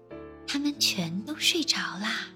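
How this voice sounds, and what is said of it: Whispered, quiet storytelling voice. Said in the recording (Chinese): “黛拉小声地说”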